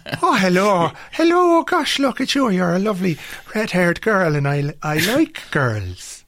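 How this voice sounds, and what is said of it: Bad put-on Irish accent. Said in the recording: “the worst and best Irish accents in films ... Irish accents on film and in television generally are fucking terrible ... even the Irish guy in this thing has got a bad Irish accent”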